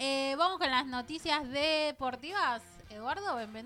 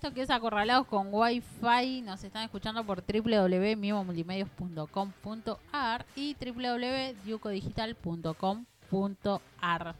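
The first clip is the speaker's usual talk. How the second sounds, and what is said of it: Radio announcer voice. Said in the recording (Spanish): “Me salió voz de locutora y no tengo voz de locutora.”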